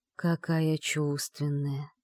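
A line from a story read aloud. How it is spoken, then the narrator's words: Hoarse wheeze. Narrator (Russian): прохрипел он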